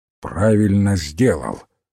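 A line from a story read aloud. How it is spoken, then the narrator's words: Grumbling. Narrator (Russian): проворчал мистер Гикари Крейг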